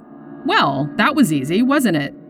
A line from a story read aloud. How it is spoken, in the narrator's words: Damon said cheerfully